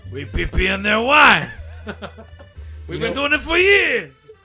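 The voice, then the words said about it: Exaggerated yelling French accent. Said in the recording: “the French accent has just evolved into us yelling”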